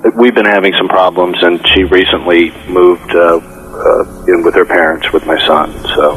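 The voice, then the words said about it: Sad, subdued voice. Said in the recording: “Why do you sound sad when you say that instead of excited? ... that's why you sound so sad.”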